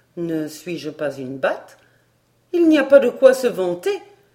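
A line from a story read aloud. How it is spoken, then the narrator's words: Exclaiming, trembling with anger. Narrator (French): s'écria Barbara en frémissant de colère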